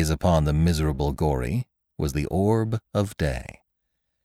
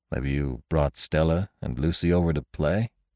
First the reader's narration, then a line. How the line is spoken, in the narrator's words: he said calmly